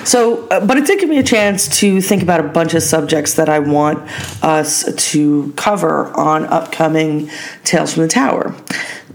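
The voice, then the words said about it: Voice sounding a little off. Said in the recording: “bout with bronchitis and asthma ... you can tell, my voice is a little bit off”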